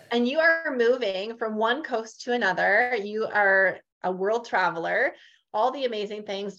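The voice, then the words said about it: Northern Canadian accent. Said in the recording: “I have a very Northern Canadian type accent”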